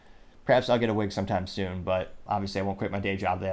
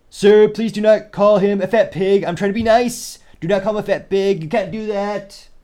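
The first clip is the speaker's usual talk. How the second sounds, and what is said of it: Donald Trump impression. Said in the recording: “That impression was not the best. Perhaps, maybe a little bit better than the worst”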